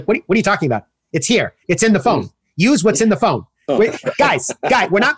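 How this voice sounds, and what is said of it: Imitates another person's voice. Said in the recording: “That's a very good imitation of him. It sounds just like him.”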